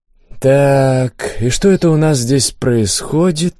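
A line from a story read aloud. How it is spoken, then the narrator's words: Drawled. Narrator (Russian): протянул я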